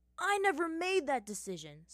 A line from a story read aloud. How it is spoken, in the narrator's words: Sokka yelled